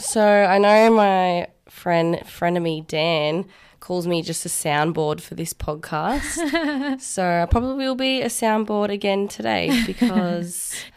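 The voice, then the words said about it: Husky, congested sick voice. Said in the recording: “I'm a little bit sick at the moment, which is why I sound like a husky, sexy man ... Sounds pretty blocked up”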